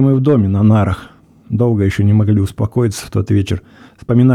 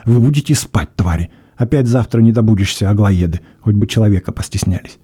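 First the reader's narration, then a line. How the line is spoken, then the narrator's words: Angry hiss. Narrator (Russian): он сердито шипел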